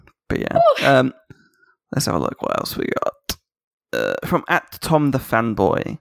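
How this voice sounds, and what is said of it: Usual voice. Nothing is said of it.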